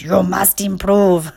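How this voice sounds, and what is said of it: Stern put-on German accent. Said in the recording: “my inner critic must have a German accent ... the angry German in me that has that accent”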